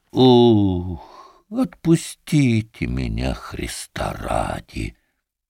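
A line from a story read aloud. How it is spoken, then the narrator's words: Quiet, weary, drunken muffled repetition. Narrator (Russian): От него несло водкой, стонать он устал, лежа на боку, мордой в соломе, только повторял негромко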